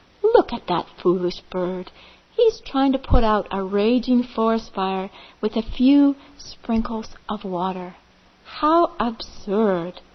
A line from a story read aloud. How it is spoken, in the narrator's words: they laughed